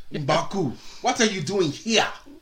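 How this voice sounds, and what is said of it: Put-on African accent. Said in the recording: “do the African voice ... Do the African voice.”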